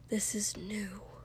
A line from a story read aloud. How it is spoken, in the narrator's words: Shoto whispered